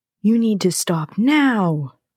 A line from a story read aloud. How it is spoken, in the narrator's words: the voice cried